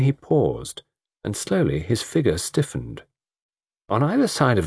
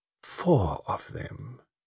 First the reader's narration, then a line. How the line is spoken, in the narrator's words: murmured Poirot